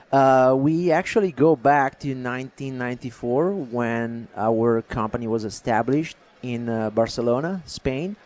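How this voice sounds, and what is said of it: Foreign accent. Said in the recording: “Is that why you got an accent? ... The accent is not gonna go anywhere.”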